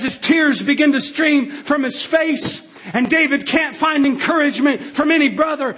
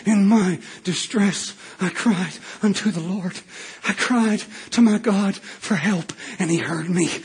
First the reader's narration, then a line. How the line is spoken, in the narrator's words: David's voice, under his voice, I can hear him begin to mumble